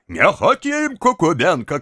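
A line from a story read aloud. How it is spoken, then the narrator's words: Shouted. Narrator (Russian): кричала другая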